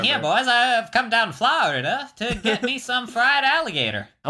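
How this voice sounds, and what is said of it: Put-on sing-song Florida accent. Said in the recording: “I'm imagining Florida, where it's like more of a sing song, like a Florida.”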